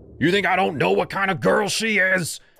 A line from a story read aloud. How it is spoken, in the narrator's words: he shouted